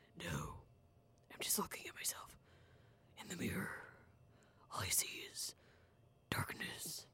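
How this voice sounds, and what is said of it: Deep Batman-style character voice. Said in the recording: “my Batman impression. It may be horrible, but I really like it.”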